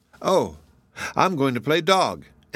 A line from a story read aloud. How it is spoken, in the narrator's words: answered Frank with a laugh